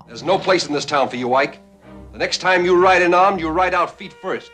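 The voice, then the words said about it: New York accent. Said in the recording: “Burt Lancaster, New York accent and all ... I don't think Wyatt Earp really said foist.”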